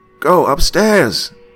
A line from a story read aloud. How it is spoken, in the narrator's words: The little boy screamed